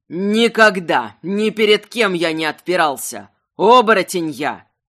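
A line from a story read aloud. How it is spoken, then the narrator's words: Trembling growl. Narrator (Russian): в горле дрожало рычание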